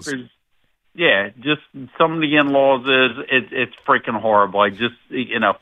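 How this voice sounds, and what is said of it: Mad, annoyed older man. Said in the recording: “you sound mad ... He sounds mad about it, too. ... He let out a hard G. ... he sounds like an older gentleman”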